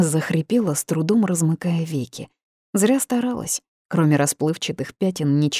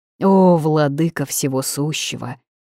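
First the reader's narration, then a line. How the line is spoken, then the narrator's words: Sonorous churchly chant. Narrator (Russian): пропело пятно зычным церковным голосом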